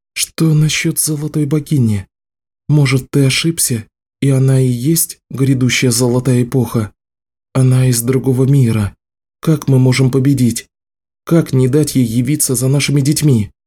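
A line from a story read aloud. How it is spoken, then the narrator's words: Sighing. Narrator (Russian): Ричард вздохнул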